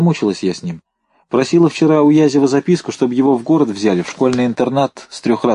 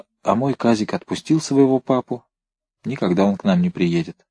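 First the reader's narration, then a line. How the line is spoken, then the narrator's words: Muttered. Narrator (Russian): Брагинская пробормотала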